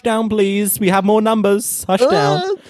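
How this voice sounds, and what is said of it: Put-on Bangladeshi accent. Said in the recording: “that wasn't camp. That was doing like a Bangladeshi accent”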